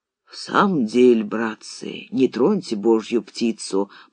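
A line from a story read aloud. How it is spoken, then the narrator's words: Old man agreeing. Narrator (Russian): поддержал старый сплавщик Лупан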